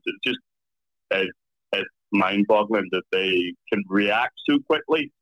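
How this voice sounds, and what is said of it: Irish accent. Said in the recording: “What is your accent? Mike is guessing it's a mix between Scottish and English ... So I'm in Ireland”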